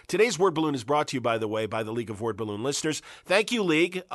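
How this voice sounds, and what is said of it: Sick voice, not at full strength. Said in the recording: “You can hear it in my voice. I still have a little concrud. I'm not at full voice”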